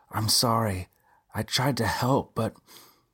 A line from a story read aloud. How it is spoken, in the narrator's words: Robbie choked on the words